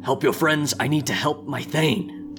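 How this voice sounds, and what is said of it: Dragon character voice. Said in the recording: “In his dragon voice.”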